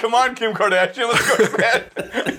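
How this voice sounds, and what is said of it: Imitates another person's voice. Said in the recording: “my Kanye West impression ... That's how he talks. To be fair, that's dead on. That was dead on.”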